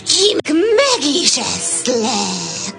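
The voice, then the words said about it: Imitating a wolf's voice. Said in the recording (Hungarian): “A róka újból a farkas hangját utánozta”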